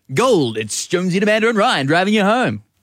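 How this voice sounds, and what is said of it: Impression of Brendan Jones' radio voice. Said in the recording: “What are you doing this voice for? ... that's what you sound like. Brendan Jones.”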